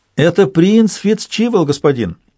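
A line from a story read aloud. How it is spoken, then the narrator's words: Joyful shout. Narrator (Russian): радостно крикнула она через плечо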